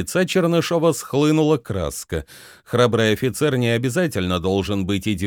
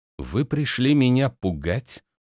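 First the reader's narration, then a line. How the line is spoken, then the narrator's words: Through clenched teeth. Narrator (Russian): процедил он сквозь зубы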